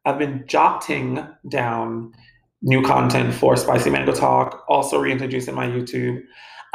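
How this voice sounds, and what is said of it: West Indian accent. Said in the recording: “I'm so West Indian. Excuse my accent.”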